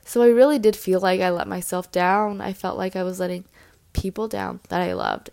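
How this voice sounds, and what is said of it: Stuffy, congested nasal voice. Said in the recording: “I sound a little stuffy, it's because my nose is stuffed right now”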